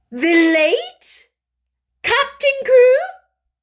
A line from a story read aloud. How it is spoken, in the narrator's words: She cried out